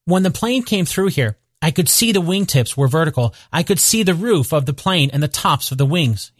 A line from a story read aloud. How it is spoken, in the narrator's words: he said